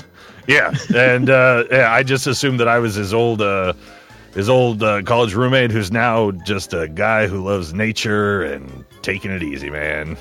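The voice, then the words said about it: Put-on laid-back accent. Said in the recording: “That is so painfully accurate. I can't stand that accent.”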